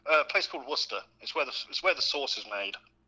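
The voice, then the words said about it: English accent. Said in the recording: “our favorite gentleman from over the pond ... His accent will give that away very quickly ... if you're really from England”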